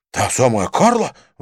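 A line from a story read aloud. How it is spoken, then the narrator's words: Exclamation. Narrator (Russian): воскликнул Винсент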